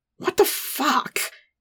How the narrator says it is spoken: he growled

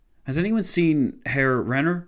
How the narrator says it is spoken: Horton von Hotzendorf asked, his voice shaking

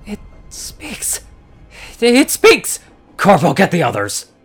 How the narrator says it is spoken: The unicorn with the sword shouted to the other unicorn

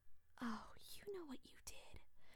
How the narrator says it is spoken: whispered Barbara

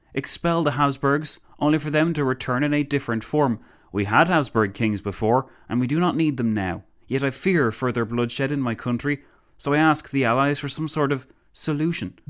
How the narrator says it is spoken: the Countess exclaimed

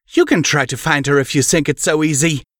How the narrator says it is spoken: Celestia snapped

